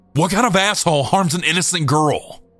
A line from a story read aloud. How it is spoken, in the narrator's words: Anthony yelled